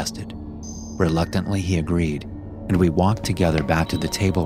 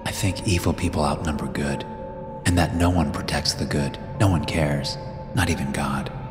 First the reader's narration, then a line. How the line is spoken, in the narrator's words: He fidgeted and muttered